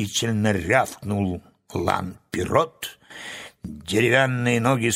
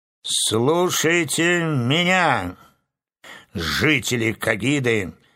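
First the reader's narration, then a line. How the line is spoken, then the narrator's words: Loud proclamation. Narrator (Russian): громко провозгласил Урфинджус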